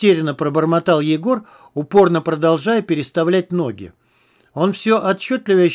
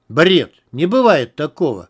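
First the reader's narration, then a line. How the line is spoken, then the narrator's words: Said irritably. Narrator (Russian): раздраженно сказал Егор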